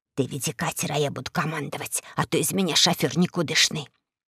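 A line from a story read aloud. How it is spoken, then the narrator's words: Grandmother whispering. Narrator (Russian): бабушка прошептала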